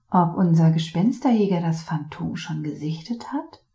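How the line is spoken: Murmur. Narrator (German): murmelte Noir McFinnigan zu

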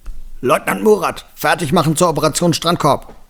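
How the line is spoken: Boy roaring back. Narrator (German): Der dunklere Junge brüllte zurück

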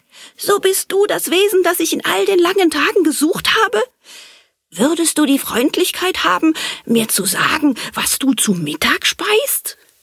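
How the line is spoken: Joyful call. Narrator (German): rief freudig

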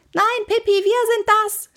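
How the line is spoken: Shouting. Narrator (German): schrie Annika

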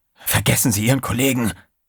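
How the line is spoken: Hissing. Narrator (German): zischte Trey

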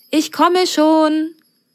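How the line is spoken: Friendly call from behind door. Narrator (German): rief eine freundliche Stimme hinter der Pforte

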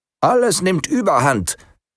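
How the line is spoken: Called out. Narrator (German): rief der 17

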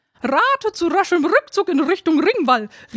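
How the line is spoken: Cheeky raven call. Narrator (German): rief einer der rotzfrechen Raben

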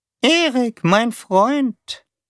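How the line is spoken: Squeaky monotone voice. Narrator (German): sagte Taube mit seiner piepsigen, eintönigen Stimme

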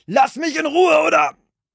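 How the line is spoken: Shouted. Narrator (German): schrie

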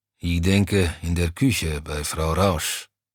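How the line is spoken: Grumbling mutter. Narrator (German): brummte Browny

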